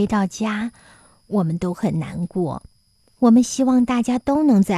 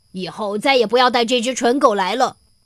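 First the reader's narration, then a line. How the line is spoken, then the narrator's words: Loud shout. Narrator (Chinese): 他大声的喊道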